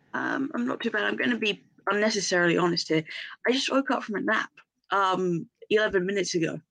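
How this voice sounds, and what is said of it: Groggy, just-woken-up voice. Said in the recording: “my voice is getting needs to wake up, and I'm just a bit muzzy”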